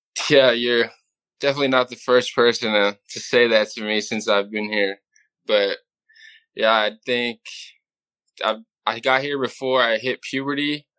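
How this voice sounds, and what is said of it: Californian accent, faint Irish trace. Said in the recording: “I was expecting a thicker Irish accent. You've got a little bit of a California in you”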